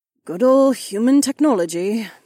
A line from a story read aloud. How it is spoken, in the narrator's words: Kat sighed